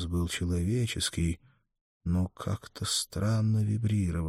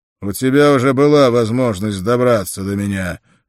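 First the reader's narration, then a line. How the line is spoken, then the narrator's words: Barked. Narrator (Russian): рявкнул Конан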